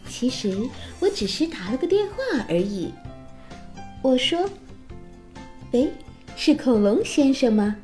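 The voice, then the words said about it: Whispering storyteller voice. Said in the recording (Chinese): “小声”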